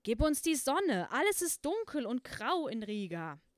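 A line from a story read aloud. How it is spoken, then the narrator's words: Wind screaming. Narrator (German): Der Wind schrie in die Wolke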